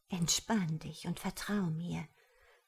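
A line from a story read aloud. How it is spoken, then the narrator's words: Lover whispering. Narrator (German): flüsterte die merkwürdige Geliebte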